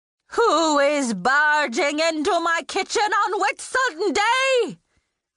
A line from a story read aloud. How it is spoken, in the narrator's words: Pasqua said, her voice building to a roar